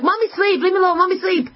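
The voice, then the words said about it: Accent comes out, screaming. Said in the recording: “My accent comes out”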